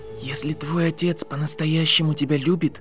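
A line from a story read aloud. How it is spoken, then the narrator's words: Whisper. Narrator (Russian): прошептал Гарри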